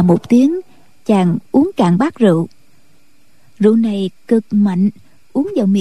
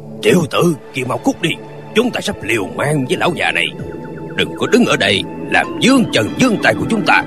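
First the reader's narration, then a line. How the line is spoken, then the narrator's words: Gruff man shouting. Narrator (Vietnamese): Một hán tử giọng ồm ồm ngoài lương đình quát lên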